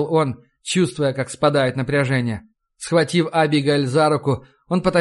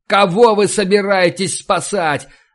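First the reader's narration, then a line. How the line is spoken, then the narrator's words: Yelled. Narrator (Russian): заорал Сандерс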